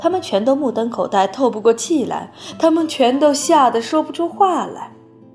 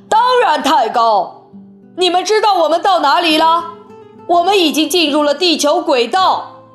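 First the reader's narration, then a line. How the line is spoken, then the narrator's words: Exclaiming. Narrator (Chinese): 温克先生叫道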